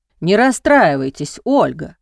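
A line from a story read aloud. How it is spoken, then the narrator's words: Grumbling. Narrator (Russian): бурчал Владимир Сергеевич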